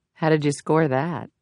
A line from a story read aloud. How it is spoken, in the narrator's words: Jameson whispered to Mars